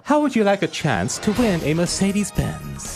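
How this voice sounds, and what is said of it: Put-on posh accent. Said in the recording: “What's up with the accent... Just putting on a posh accent”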